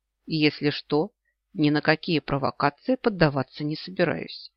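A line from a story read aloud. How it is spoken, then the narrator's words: Calm. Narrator (Russian): спокойно ответил я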